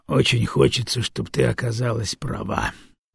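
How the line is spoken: Sighing. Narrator (Russian): вздохнул Дагомара

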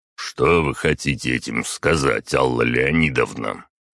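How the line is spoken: Deep bass voice. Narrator (Russian): мужчина пробасил

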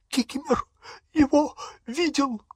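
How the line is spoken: Wheezing. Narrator (Russian): просипел эльф

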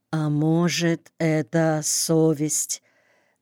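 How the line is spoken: Hesitant, very quiet. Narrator (Russian): Не сразу и очень тихо произнесла мать

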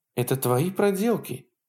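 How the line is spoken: Accusing exclamation. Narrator (Russian): обвиняюще воскликнула она

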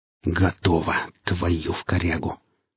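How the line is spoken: Relieved exhale. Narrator (Russian): с облегчением выдохнул сталкер

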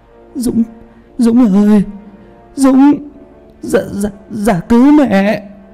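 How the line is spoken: Stiff-mouthed old woman stammering. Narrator (Vietnamese): Bà ngoại mồm cứng đơ lại, chỉ lắp bắp được mấy tiếng

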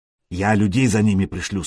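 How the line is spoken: Plain. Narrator (Russian): сказал покупатель

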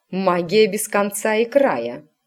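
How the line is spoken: Snorted, mother. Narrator (Russian): фыркнула матушка

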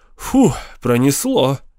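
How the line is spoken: Relieved exhale. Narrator (Russian): выдохнул Кастнер

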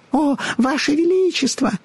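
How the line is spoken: Overlapping squeaky voices. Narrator (Russian): наперебой запищали они

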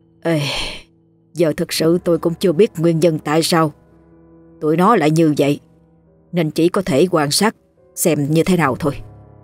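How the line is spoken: Sighing. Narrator (Vietnamese): thở dài nói

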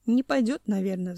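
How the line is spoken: Sigh. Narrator (Russian): вздохнул Семен

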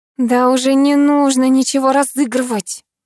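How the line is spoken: Groaning. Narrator (Russian): простонала я

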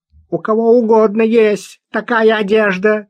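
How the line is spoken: Shouted. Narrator (Russian): крикнул Тавянян

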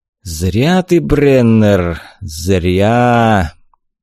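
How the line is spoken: Slow drawl. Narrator (Russian): Медленно протянул Костас

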